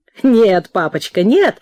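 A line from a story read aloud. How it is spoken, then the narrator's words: Laughing woman. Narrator (Russian): засмеялась она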